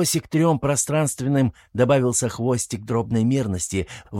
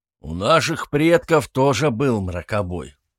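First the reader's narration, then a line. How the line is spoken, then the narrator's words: Gloomy mutter. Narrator (Russian): хмуро пробурчал Мстислав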